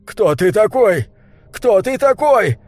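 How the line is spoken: Terrifying shout. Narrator (Russian): крикнул он страшным голосом

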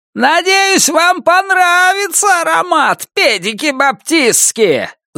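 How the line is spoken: Yelled through door. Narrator (Russian): заорал кто-то с той стороны двери

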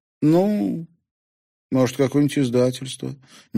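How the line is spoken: Uncertain suggestion. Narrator (Russian): неуверенно предположила она

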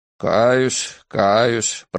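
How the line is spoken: Mutter. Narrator (Russian): пробормотал он

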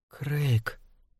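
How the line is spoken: Whisper. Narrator (Russian): прошептала она

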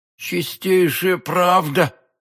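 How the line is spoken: Babbling. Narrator (Russian): пролепетал галантерейщик

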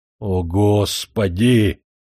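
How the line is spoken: Despairing groan. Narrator (Russian): застонал я в отчаянии

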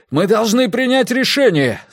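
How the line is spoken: Yelling. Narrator (Russian): заорал Миккель

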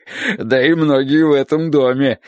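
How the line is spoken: Sudden loud laughter. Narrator (Russian): внезапно расхохотался Хозе

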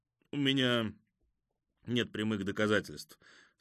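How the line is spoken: Dry. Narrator (Russian): сухо сказал Лапара

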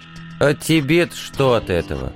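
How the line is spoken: Bored. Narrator (Russian): Скучающим тоном спросил командор

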